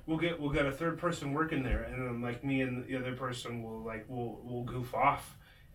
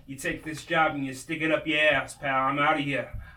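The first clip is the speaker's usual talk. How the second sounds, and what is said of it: Put-on New Jersey accent. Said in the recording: “I'm gonna have like a Jersey accent.”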